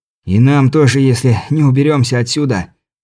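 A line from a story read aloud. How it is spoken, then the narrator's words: Hoarse wheeze. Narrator (Russian): прохрипел я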